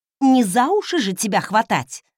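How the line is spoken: Snapped back. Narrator (Russian): огрызнулась в ответ

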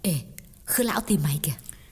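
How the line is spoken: Whispering. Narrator (Vietnamese): Xuân thì thầm nói

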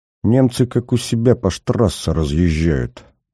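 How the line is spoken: Through clenched teeth. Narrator (Russian): процедил Смертин

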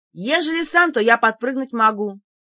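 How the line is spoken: Barking shout. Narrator (Russian): гаркнула я

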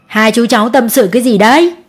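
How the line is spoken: Laughing loudly. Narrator (Vietnamese): ông cười to

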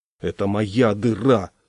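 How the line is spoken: Irritated. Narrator (Russian): раздраженно сказал

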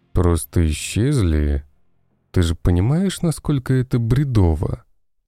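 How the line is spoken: Forced calm, restrained. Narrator (Russian): Герцог старался говорить спокойно и сдержанно

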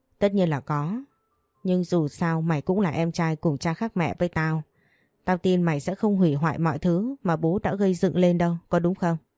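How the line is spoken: Manic laughter. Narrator (Vietnamese): Thành đột nhiên lại cười phá lên như một thằng điên

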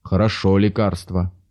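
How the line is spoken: Grumbling to himself. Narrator (Russian): проворчал про себя Захар

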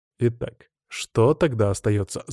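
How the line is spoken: Thoughtful mutter. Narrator (Russian): задумчиво пробормотал я

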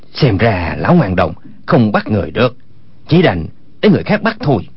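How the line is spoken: Lowered voice. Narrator (Vietnamese): Chu Bá Thông hạ giọng nói

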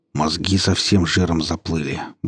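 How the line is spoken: Grumbling. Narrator (Russian): буркнул Борька

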